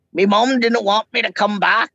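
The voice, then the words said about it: Poor movie character impression, Shrek-like. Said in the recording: “That was a terrible impression ... That was a bit like Shrekian”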